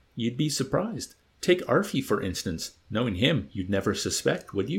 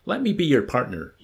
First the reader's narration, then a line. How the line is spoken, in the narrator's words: he blurted out imploringly